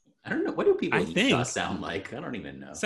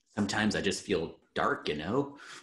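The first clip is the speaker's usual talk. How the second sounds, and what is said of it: Put-on Utah accent, bit North Dakota. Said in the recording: “That was a good Utah accent, I think. ... It's a little North Dakota”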